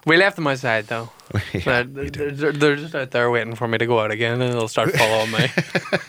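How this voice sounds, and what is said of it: Irish accent. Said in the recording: “I picked up on the Irish accent.”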